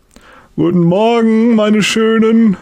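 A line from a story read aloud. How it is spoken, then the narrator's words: Loud call. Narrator (German): ruft er laut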